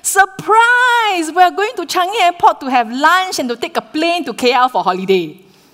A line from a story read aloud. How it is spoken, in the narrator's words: we shouted